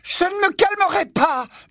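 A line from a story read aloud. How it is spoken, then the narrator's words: Screaming. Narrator (French): hurla-t-elle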